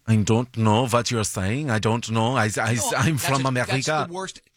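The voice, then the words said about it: Bad put-on German accent. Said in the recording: “That's the worst accent you've ever done? ... My German is ... This is the voice I do. It's a little bit gay. It's a little bit nice.”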